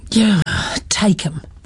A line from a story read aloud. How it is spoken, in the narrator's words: the man had sighed